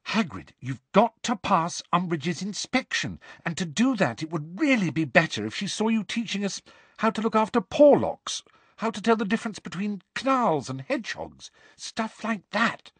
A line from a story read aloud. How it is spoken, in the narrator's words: said Hermione earnestly